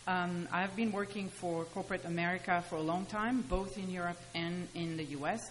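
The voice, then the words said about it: French accent. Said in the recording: “as you can hear by my accent, you know, we moved from France”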